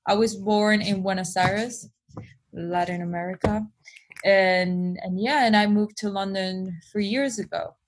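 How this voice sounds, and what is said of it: Spanish accent. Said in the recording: “I'm getting some of a, a Spanish accent going on there”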